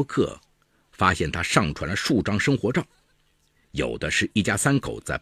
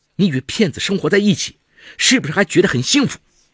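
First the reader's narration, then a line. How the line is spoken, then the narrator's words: Furious. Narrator (Chinese): 吕燕满腔怒火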